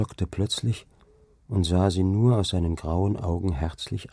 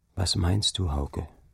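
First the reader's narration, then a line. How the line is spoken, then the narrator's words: Quiet question. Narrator (German): frug sie leise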